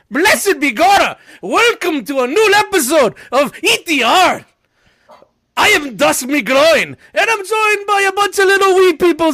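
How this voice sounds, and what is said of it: Attempted Irish accent, sounding off. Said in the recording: “I don't know if I sounded Irish or like really bad, like Brooklyn Russian. Latvian. I sounded very Latvian.”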